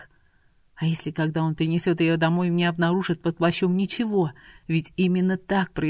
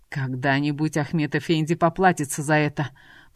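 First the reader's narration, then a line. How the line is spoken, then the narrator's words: Muttered through clenched teeth. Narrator (Russian): Процедил он сквозь стиснутые зубы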